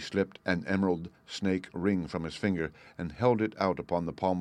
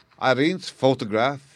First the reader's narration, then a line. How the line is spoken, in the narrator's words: he cried